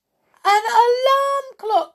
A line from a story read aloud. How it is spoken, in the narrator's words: they cried